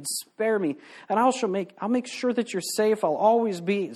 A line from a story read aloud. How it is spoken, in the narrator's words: he pleaded